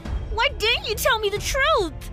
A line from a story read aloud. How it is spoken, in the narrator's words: I screamed